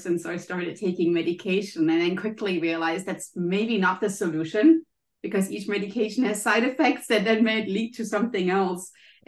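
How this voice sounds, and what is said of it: German accent. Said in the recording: “as you can maybe hear from my accent, I'm German”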